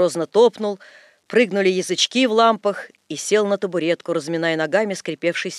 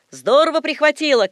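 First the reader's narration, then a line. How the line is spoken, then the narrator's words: Shouts from behind. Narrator (Russian): кричали сзади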